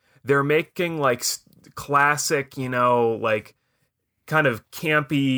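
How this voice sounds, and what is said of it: Usual voice. Nothing is said of it.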